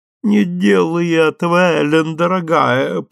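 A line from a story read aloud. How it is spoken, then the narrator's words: Moaning plea. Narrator (Russian): простонала Сузи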